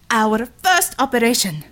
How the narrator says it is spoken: Red Savior exclaimed

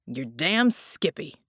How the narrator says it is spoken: Jack growled

